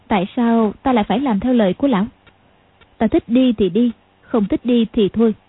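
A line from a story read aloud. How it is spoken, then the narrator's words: Cold. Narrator (Vietnamese): Tiểu Long Nữ lạnh lùng nói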